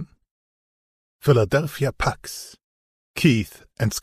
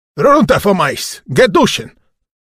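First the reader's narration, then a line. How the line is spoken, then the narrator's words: Deafening shout, Russian accent. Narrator (German): ruft er in ohrenbetäubender Lautstärke zusammen mit seinem unverkennbaren russischen Akzent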